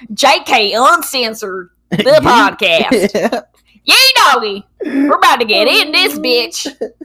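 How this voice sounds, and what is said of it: Put-on hillbilly accent. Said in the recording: “I just want to hear a hillbilly accent ... Hillbilly moment”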